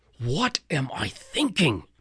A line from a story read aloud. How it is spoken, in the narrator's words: Chiron cried